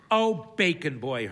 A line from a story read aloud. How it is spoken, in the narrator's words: Hermione exclaims